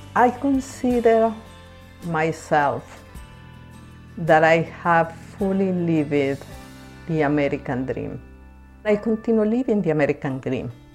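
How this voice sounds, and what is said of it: Strong accent in English. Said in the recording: “even if we have a strong accent”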